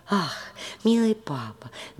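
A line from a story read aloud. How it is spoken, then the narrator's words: Exclaiming. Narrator (Russian): воскликнула наконец Мари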